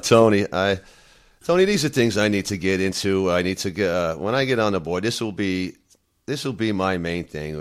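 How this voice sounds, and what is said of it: Congested voice from a cold. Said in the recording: “I have a cold. I'm not feeling well today”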